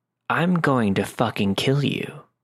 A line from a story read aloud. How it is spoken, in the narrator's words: casually, but in a low, steady voice, said